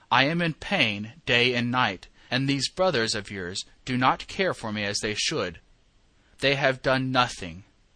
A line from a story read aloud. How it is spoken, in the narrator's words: complained bitterly